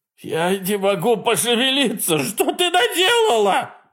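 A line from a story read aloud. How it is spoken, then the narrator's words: Shout. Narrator (Russian): закричал он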